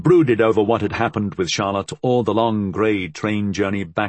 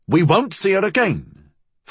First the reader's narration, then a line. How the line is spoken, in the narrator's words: Fool said angrily